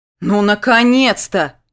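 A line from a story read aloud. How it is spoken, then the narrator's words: Shouted over the phone. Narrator (Russian): выкрикнула в трубку подруга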